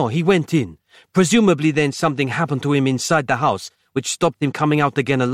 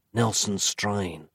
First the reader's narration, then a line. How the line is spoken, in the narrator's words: whispered Nick